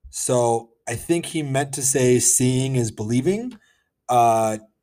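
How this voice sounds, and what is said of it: Usual voice. Nothing is said of it.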